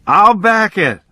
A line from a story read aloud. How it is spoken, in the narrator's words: the life man screamed